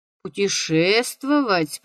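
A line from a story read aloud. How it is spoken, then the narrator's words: Sleepy mumble while stretching. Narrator (Russian): пробормотал нотариус, потягиваясь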